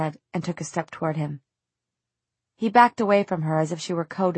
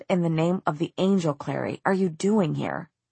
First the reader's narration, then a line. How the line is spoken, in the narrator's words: the harshness of his tone